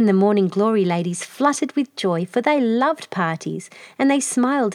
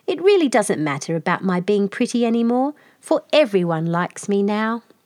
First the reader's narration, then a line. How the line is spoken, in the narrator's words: perfectly happy, and she laughed to herself and said